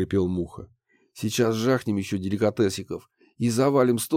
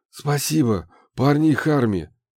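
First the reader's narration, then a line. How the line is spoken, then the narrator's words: Breathless exhale. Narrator (Russian): выдохнул я, стараясь отдышаться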